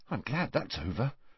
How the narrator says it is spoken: muttered Neville

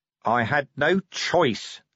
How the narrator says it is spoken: said Vimes hotly

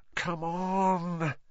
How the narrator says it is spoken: Ron muttered

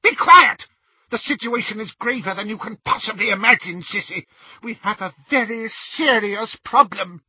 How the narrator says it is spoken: But Bellatrix screamed

